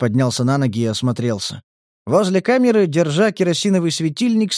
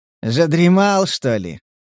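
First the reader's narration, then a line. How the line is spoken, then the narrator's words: Sarcastic question. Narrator (Russian): язвительно поинтересовался разбудивший его голос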